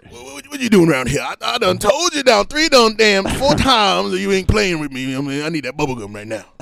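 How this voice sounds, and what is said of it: Old Southern man voice. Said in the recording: “I can do a very good old man voice, like old Southern ... That's spot on, bro.”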